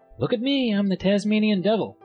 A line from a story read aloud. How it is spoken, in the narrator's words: Little Johnny with renewed vigor, shouting